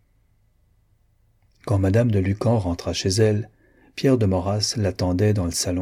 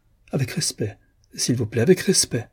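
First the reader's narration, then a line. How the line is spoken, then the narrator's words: Laughing. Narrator (French): ajouta-t-elle en riant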